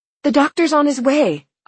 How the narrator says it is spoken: I gasped out

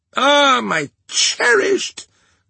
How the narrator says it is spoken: cried the Vengeance

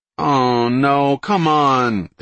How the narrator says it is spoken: they whined in unison

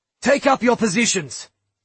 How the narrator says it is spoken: Droy snapped

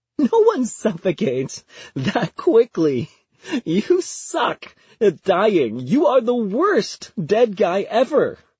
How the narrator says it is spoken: between giggles says

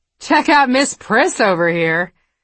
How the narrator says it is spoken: someone called out, followed by a round of mean female laughter

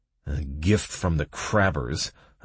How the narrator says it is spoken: I muttered

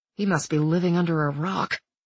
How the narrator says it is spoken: Sam muttered to Nick

